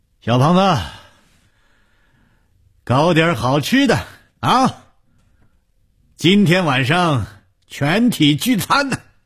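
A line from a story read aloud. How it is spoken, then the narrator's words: Loud. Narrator (Chinese): 红鱼大声地说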